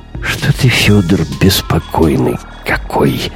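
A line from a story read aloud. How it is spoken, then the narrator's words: Muffled grumbling behind door. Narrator (Russian): заворчали за дверью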